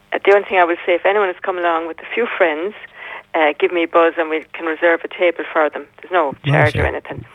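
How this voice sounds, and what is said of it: Pleasant, clear radio-style speaking voice. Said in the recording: “you have a great radio voice. You have. You come across extremely well.”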